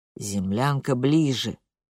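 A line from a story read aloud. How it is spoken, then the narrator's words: Tired, coaxing. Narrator (Russian): отзывается Пьетюр устало, будто увещевая капризного ребенка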